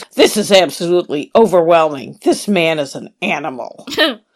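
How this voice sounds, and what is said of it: Imitates another person's voice. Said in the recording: “my David Crook impersonation”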